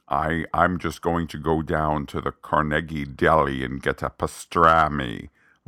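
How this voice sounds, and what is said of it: Benedict Cumberbatch's imperfect American accent. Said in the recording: “now I talk like Benedict Cumberbatch. Because his American accent is not flawless.”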